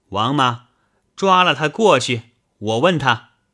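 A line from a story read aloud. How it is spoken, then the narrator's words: Sharp commanding shout. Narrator (Chinese): 梁夫人喝叫带来的老妈子道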